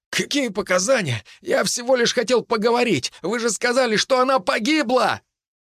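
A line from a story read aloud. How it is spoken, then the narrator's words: Sharp cry. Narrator (Russian): Фигурка на полу вскрикнула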